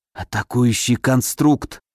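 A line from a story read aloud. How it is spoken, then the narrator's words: Dry-lipped whisper. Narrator (Russian): прошептал я пересохшими губами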